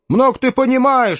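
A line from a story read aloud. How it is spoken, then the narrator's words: Snapping. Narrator (Russian): огрызнулся Хэл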